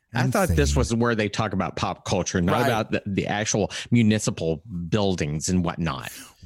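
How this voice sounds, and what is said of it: Angry imitation of another person's voice. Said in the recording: “my angry Truman Capote impersonation”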